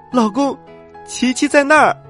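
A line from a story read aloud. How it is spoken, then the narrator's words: Loud shout. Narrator (Chinese): 丽莎大声的喊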